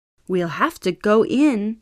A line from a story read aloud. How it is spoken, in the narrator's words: said Papa